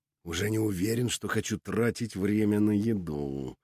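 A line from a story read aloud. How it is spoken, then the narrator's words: Purring. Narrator (Russian): промурлыкал Петр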